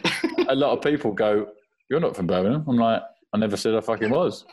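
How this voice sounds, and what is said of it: London accent. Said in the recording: “didn't lose my accent ... you definitely don't sound like you're on Peaky Blinders ... I've always said I'm from London”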